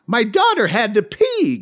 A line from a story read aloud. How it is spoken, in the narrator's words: Gay exclaimed